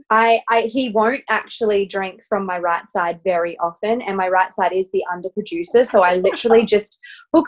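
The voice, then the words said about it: Australian accent. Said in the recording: “we can hear from your accent you are from australia”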